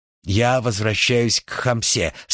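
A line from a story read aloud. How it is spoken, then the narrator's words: Plain. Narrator (Russian): сказал он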